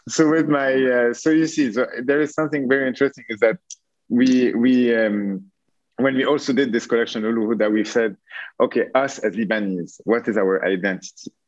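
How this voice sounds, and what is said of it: Strong French accent. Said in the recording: “Your accent doesn't give it away at all, by the way. I really thought it was Dutch... I'm being a tiny bit ironic... very French accent”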